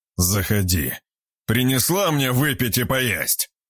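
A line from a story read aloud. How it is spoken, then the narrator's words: Growl. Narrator (Russian): прорычал он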